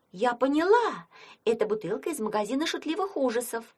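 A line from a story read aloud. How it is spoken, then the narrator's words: Exclaimed. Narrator (Russian): воскликнула она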